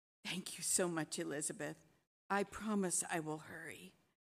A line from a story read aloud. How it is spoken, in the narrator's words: Hadar nodded and whispered